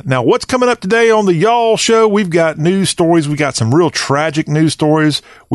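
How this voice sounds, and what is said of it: Southern American accent. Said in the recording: “Talk with a Southern accent.”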